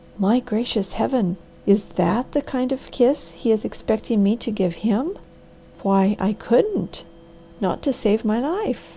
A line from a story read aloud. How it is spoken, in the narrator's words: she whispered in an awed voice